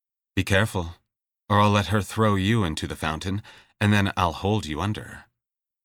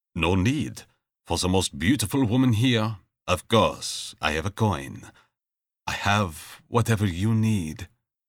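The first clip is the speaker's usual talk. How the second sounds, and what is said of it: Thick foreign accent. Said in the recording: “saying in a thick accent”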